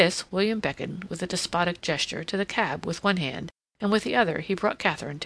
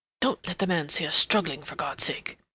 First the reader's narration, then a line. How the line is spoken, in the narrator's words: he murmured